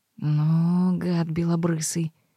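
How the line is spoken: Grumbling under breath, chilled. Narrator (Russian): ворчала она себе под нос, зябко ёжась

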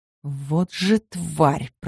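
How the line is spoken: Hissing. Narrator (Russian): прошипела

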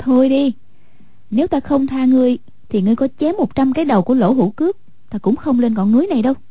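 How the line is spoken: Smiling, gracious. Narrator (Vietnamese): Hoàng Dung duyên dáng mỉm cười, nói

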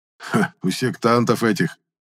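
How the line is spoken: Skeptical snort. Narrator (Russian): скептически хмыкнул Антип

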